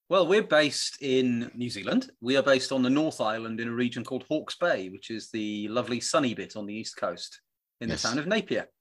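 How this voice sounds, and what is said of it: Welsh British accent. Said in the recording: “I am Welsh. I'm from Pembrokeshire, the west coast of Wales ... my British accent”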